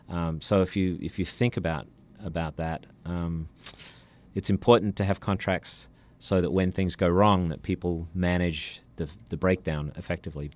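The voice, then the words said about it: Australian accent. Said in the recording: “we've been enjoying your accent today ... I'm from Sydney.”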